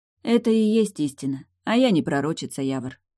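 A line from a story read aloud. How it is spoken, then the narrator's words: Plain. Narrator (Russian): ответила Яромира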